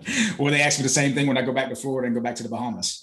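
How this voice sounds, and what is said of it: Southern country twang accent. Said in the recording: “how do you have that accent that you have right now? ... boy, you country. ... I've adapted that country twang.”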